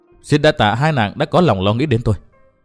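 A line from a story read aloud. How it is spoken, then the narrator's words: Stern. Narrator (Vietnamese): chàng nghiêm giọng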